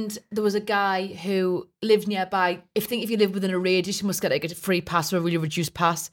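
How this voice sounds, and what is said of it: Usual voice. Nothing is said of it.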